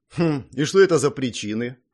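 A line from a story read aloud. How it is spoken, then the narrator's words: Impatient snort. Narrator (Russian): хмыкнул я, не выдержав паузы после фразы Мэй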